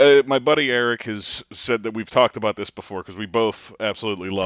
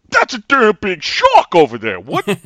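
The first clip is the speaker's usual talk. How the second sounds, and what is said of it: Tracy Morgan impression as Quint. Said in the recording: “I like Tracy Morgan, I really do, but as Quint ... that impression”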